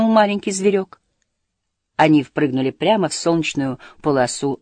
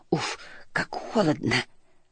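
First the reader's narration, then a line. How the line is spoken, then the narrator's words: Mutter. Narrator (Russian): пробормотала она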